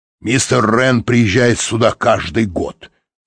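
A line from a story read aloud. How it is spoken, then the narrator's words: Snorting, dismissive. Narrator (Russian): фыркнул Тибинг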